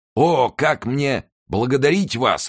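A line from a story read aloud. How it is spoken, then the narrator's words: Old man exclaiming. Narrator (Russian): воскликнул старый господин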